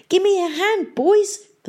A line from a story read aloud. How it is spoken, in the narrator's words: the mare pleaded